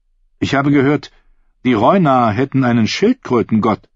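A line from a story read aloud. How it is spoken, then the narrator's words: Plain. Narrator (German): sagte Ser Aris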